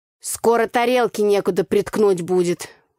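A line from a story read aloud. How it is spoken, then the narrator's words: Grumbled. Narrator (Russian): проворчал Митька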